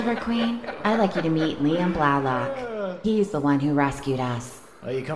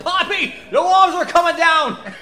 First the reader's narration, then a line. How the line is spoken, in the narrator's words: starts yelling